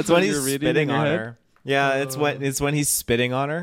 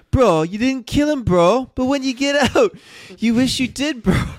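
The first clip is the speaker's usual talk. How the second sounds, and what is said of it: Bad put-on British accent. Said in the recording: “I'm gonna try ... this in a British accent. ... that was fucking terrible.”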